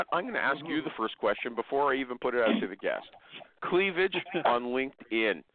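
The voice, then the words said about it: Congested, slightly deeper voice. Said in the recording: “I got a cold ... My voice is a little deeper ... you can hear the stuffiness”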